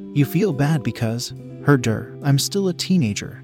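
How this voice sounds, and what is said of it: Mocking voice. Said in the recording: “she remarked in a mocking voice.”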